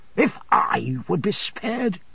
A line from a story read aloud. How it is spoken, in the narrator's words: returned the other fiercely